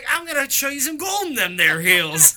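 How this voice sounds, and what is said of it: Exaggerated Southern American drawl. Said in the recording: “He invented the accent. ... just because he talks like this a little bit.”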